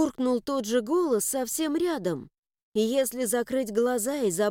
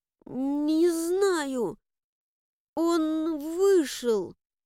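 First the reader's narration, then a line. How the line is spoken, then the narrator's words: Strained, forced out. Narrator (Russian): выдавила я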